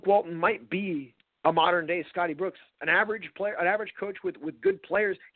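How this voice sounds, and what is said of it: Hoarse, mostly lost voice. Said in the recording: “My voice is still gone.”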